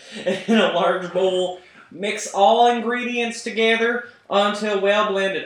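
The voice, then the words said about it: Put-on granny-style accent. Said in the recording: “in a, Canadian? ... I'm assuming this is the voice that Granny would have wanted ... I'm not doing the accent anymore ... really, you could have fooled me.”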